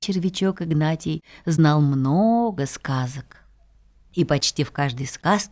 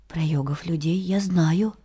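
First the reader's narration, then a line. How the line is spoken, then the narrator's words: Quiet little worm. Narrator (Russian): тихо сказал червячок Игнатий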